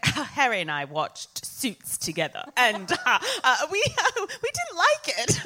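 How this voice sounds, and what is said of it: Put-on accent. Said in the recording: “Are you doing the accent now to prove you can?”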